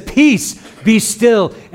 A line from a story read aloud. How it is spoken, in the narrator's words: shouts with just a word, and he says